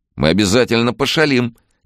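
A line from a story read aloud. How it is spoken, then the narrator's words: Cheerful agreement. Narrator (Russian): весело согласился тот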